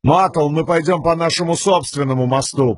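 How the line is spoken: Shouting back. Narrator (Russian): прокричал он в ответ

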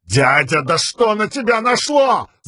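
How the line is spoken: Yelling. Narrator (Russian): завопил Элокар

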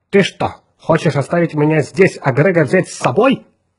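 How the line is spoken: Indignant hiss, android. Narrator (Russian): возмущенно зашипел андроид

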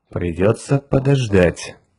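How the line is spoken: Muttering under breath. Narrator (Russian): пробормотал себе под нос капитан Фьючер

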